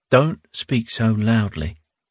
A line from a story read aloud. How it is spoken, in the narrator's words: Squint-Eyes said very quietly